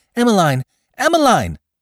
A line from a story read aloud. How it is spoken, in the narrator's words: called hysterically